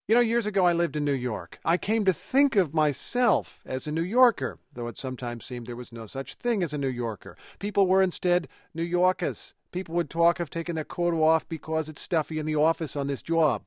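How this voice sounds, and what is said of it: Old-school New York accent. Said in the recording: “That would be an old-school New York accent.”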